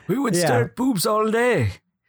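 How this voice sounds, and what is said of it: Exaggerated character voice and accent. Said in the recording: “You got like a Mitch voice going there. Got the Mitch accent.”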